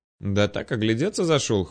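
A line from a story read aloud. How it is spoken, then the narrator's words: Wry grunt. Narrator (Russian): хмыкнул я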